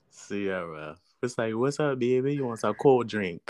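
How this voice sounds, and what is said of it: Imitated New Orleans accent. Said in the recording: “friends from New Orleans? I love their accents ... Her, I love her accent.”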